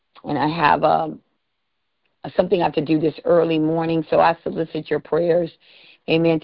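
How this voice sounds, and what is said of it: Tired-sounding voice. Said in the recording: “I'm quite tired. I'm sure you could hear that in my voice.”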